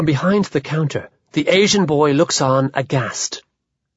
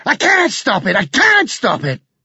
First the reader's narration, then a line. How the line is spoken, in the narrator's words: again and again, shouting over and over